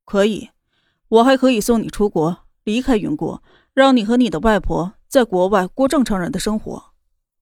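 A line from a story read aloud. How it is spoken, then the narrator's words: Calm, indifferent. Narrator (Chinese): 严立浩淡淡的说道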